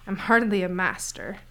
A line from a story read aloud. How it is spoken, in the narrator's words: Kai said with a snort